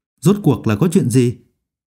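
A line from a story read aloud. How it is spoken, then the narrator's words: Low, demanding. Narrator (Vietnamese): Phương Mộc trầm giọng quát hỏi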